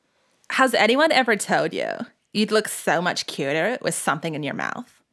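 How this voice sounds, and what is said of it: Put-on bitchy voice. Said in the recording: “in my bitch voice”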